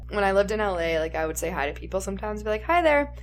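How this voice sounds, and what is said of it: Minnesota Midwestern accent. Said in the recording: “You have more of a Minnesota accent.”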